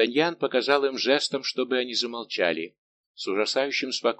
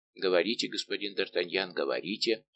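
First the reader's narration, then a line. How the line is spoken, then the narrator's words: Plain. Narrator (Russian): ответил храбрый офицер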